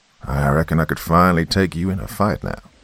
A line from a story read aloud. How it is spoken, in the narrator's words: Dad quipped